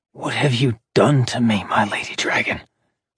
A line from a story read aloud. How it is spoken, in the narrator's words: Orion whispered in her ear